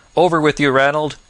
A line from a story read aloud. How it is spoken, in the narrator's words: cried Turkey, as if with his last breath